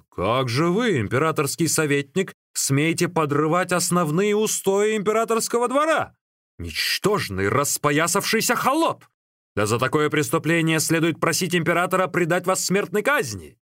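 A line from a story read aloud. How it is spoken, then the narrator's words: Indignant shout. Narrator (Russian): Цайдзин пришел в негодование и закричал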